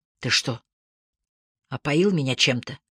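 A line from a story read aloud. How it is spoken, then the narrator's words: Hoarse question. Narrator (Russian): спросила я сиплым голосом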